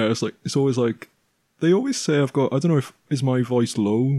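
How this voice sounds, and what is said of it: Usual voice. Nothing is said of it.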